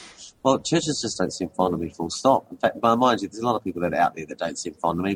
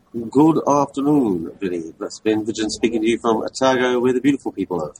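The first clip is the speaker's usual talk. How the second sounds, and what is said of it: Transylvanian-sounding accent. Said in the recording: “It sounds like you're speaking in a Transylvanian accent. Is that some kind of like Otagoan dialect?”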